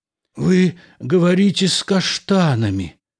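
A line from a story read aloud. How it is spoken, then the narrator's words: Strange rasp. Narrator (Russian): Странно прохрипел он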